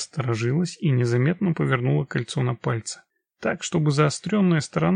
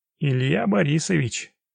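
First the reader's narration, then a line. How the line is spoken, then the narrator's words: Laughing. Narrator (Russian): Масленников рассмеялся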